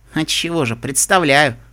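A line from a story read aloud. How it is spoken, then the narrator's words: Wry snort. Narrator (Russian): хмыкнула Типпи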